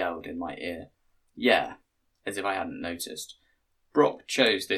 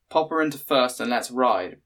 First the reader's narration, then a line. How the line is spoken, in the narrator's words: Brock called out with exaggerated cheerfulness